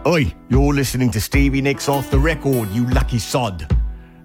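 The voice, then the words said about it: Put-on British accent. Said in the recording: “I don't know why I'm doing a British accent. I'm not British.”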